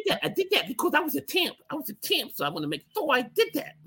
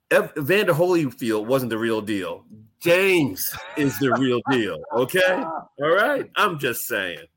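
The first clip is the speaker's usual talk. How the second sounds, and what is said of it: Poor imitation of a boxer's voice. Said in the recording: “My terrible version imitation of Mike Tyson.”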